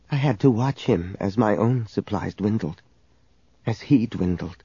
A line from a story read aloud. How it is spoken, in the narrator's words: She whispered to Leia